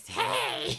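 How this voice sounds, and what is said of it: Weird, off-putting creepy kid voice. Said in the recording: “puts on his voice when it gets woken up ... I'm a creepy kid ... it's actually kind of like, that's weird and off-putting”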